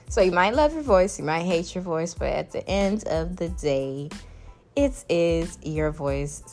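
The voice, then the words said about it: Caribbean accent, soothing voice. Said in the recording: “I have a pretty soothing voice ... my Caribbean accent ... it's so cute”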